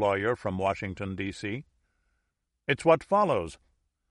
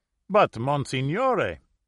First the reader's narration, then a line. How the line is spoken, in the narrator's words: exclaimed the avvocato from Italy